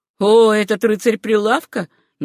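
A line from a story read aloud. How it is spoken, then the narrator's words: Mocking remark. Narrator (Russian): насмешливо произнес наследник богатого Райта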